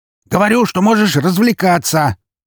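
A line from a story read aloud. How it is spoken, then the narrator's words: Shouting into phone. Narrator (Russian): прокричал Броницкий в трубку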